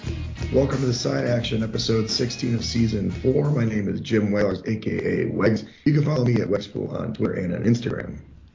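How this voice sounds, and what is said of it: Worn-out, rough-sounding voice. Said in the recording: “you can hear my voice is trash ... I'm going to try to rest the voice”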